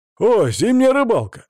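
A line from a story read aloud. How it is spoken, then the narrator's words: Exclaimed. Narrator (Russian): воскликнул тот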